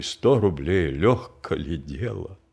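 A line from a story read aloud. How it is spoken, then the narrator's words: Grumbling to himself. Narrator (Russian): мало-помалу успокоился, хотя все еще изредка ворчал про себя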